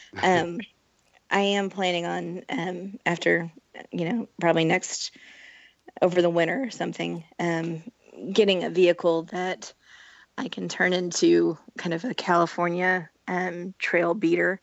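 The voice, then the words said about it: Strained, fading voice. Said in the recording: “my voice is falling off.”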